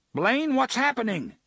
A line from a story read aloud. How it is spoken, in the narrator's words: he shouted